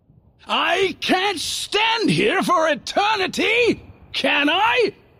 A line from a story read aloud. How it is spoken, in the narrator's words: he snapped